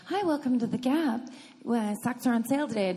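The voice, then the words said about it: Put-on mom voice. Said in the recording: “Mom voice.”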